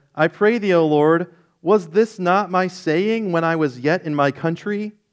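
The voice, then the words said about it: Whiny reading voice. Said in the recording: “It's very hard for me not to read that in like a really whiny voice.”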